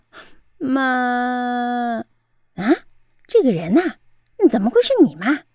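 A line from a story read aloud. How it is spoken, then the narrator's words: Hoarse, choked with emotion. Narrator (Chinese): 鳄鱼忍不住鼻头酸了，红着眼睛沙哑地说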